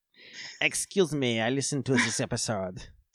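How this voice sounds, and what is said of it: Exaggerated put-on French accent. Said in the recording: “You were just doing a French person who listened to the episode. ... I was doing like a human Pepe Le Pew”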